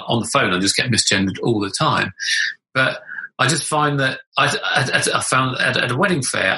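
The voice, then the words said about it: Low, masculine-sounding voice. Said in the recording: “my voice hasn't, it's lightened a bit from what it was, but it hasn't lightened that much. I know I still sound like a bloke.”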